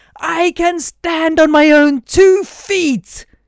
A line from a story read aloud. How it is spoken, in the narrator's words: yelled